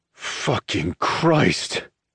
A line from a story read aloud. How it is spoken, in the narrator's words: Ronaldo groans